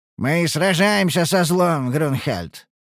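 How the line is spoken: Wry snort. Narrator (Russian): хмыкнул Тубарра

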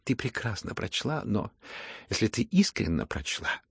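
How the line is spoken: Near whisper. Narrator (Russian): прибавила она почти шепотом

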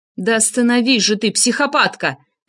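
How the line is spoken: Bark. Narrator (Russian): рявкнул я

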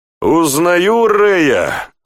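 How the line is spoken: Laughing loudly. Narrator (Russian): захохотал Тьерри

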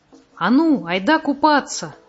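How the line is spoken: Shout. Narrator (Russian): крикнул Мумитроль

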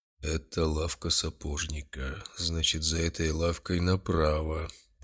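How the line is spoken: Man muttering under breath. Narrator (Russian): пробормотал себе под нос мужчина

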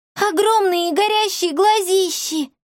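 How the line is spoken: Terrified girl screaming. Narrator (Russian): в ужасе крикнула девочка

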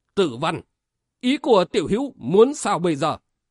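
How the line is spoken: Stern interrupting question. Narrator (Vietnamese): Vệ đạo hội chủ nghiêm nghị hỏi xen vào

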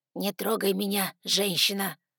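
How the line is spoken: Growling father. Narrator (Russian): прорычал отец

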